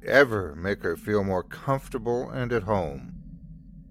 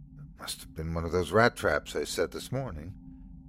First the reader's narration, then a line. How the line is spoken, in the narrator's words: she whispered to the dog